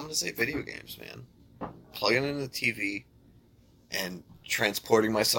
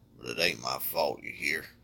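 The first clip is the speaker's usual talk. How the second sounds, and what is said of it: Put-on Southern accent. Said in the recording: “if I slip into a southern accent”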